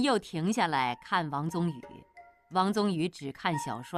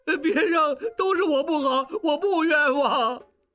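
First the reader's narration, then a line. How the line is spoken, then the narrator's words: Crying. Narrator (Chinese): 小栓哭道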